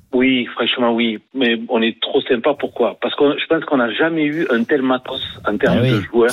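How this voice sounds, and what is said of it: Slight regional French accent. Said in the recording (French): “On entend le petit accent, c'est sympa.”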